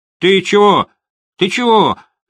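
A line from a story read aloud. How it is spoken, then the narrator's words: Shrill, nervous rapid speech. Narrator (Russian): визгливо, но, как мне показалось, нервно зачастил молодой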